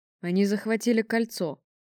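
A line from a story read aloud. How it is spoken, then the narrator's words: Gloomy pronouncement. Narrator (Russian): мрачно вещал главный инженер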